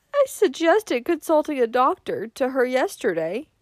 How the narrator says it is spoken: moaned Mrs

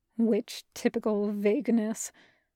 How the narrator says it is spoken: the demon muttered

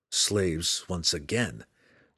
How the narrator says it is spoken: Drizzt said grimly

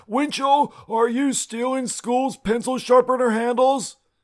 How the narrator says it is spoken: yelled in my face

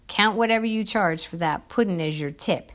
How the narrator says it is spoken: he growled

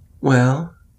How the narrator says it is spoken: he said uneasily

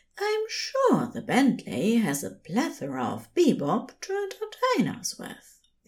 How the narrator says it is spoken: the angel replied softly

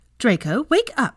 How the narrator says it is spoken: his mother said more sharply

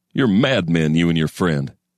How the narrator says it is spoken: he'd have laughed, a snorting bull's laughter

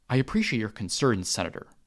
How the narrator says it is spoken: Mace replied

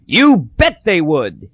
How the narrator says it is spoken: cried

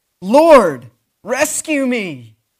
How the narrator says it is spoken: As he began to sink, he shouted

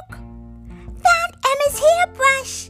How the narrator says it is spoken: yelled Hannah

